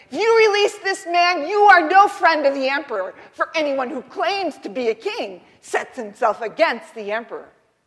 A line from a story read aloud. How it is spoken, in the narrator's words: the Jews kept shouting